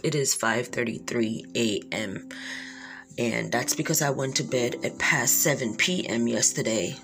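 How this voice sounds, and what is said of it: Very low, early-morning voice. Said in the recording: “my voice is very low”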